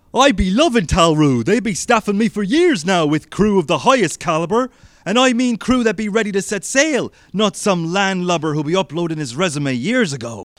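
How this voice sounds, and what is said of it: Pirate accent without the rasp. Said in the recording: “if you take away the rasp, right, you can still have that same kind of accent, but they've been at sea for a while”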